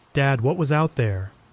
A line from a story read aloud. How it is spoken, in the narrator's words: I asked again, my voice a quiver of fear and curiosity